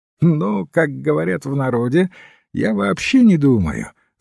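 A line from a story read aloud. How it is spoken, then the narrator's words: Laughing. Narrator (Russian): засмеялся казначей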